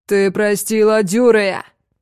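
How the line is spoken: Roaring. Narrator (Russian): Взревел

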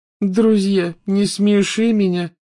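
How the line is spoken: Contemptuous, through clenched teeth. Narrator (Russian): презрительно процедила Лаванда

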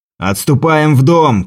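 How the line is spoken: Shout. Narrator (Russian): крикнул Бастиан Моран

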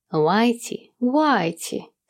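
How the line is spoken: Sugary coaxing call. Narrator (Russian): С слащавым, зазывным тоном окликнул он

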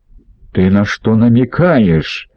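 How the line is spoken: Growled. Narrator (Russian): прорычал Массина

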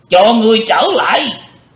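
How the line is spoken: Cold shout. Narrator (Vietnamese): Hắn thét lên lành lạnh

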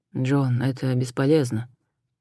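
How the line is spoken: Quiet call. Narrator (Russian): тихо позвал Адам

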